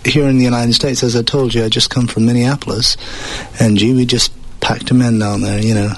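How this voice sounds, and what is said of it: Acquired English accent. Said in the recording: “you've picked up an English accent ... I had a southern accent before then”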